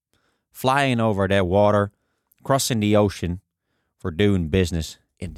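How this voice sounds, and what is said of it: Slow put-on Southern American accent. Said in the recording (Dutch): “kun je je accent een beetje aanpassen. Je zegt daar geen have, maar have. En de A wordt een beetje een A-E-klank. Eh, de T's worden D's, geen little, maar little. En de G's in woorden als flying, running, ja, die, die verdwijnen gewoon. En alles mag ook lekker langzaam.”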